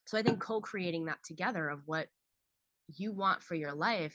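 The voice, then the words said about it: Strained, fading hoarse voice. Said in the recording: “I'm losing my voice. I've been talking, screaming.”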